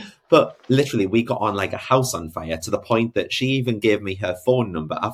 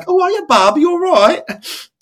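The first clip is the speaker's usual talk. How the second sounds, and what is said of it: Bad put-on Brummie accent. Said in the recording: “That was the worst Brummie accent ever.”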